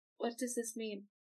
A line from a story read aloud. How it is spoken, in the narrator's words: She just kind of walks in silence for a while, and then just really quietly asks